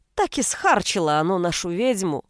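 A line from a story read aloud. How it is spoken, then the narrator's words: Nasty sigh. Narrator (Russian): Гнусно вздохнула глава клана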